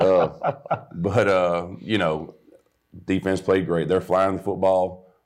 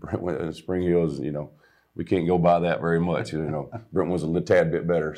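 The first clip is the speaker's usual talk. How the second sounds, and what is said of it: Sarcastic tone. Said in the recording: “sarcastic. I'm being sarcastic.”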